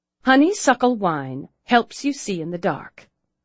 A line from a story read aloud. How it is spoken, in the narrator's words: Claire said stiffly